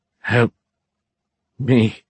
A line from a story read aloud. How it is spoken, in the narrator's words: the man stuttered through quivering lips